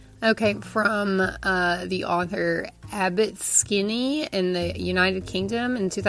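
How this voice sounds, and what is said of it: Usual voice. Nothing is said of it.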